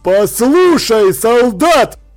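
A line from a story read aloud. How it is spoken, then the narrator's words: Barked. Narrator (Russian): рявкнул он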